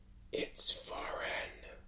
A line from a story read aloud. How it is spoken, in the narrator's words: he said, and then added, barely above a whisper